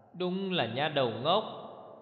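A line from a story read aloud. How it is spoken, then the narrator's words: Scolding. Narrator (Vietnamese): gắt rằng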